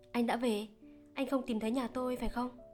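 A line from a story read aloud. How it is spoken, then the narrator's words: Forced calm, slightly trembling. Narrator (Vietnamese): cố lấy giọng bình tĩnh, thản nhiên, nhưng Văn nghe rõ thấy hơi run run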